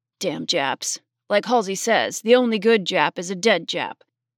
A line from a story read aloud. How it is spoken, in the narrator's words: a hefty man behind Peggy grunted to a friend